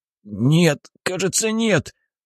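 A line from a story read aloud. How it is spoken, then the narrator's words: Man groaning. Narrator (Russian): Мужчина застонал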